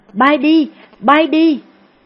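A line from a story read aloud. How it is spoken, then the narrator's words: Panicked woman shouting. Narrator (Vietnamese): Cô hốt hoảng hét lên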